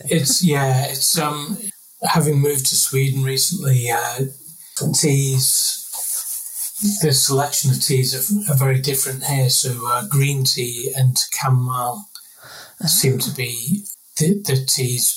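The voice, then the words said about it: Slight northern English accent. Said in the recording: “do I detect a slight northern twang to your accent? ... Yeah. Yeah.”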